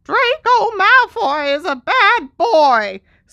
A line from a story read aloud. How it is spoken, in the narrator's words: squeaked Dobby angrily